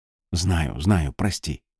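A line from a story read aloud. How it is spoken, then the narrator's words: Quiet speech. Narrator (Russian): тихо сказала она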